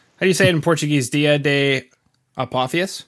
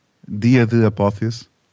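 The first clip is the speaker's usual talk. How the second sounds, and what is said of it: Poor Spanish-Brazilian put-on accent. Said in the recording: “you were going for the Brazilian accent. ... I was Spanish with a Brazilian accent. It was awful.”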